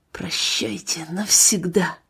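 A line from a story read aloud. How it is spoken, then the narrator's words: Bitter whisper to himself. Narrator (Russian): с горечью прошептал про себя Ганс Виктор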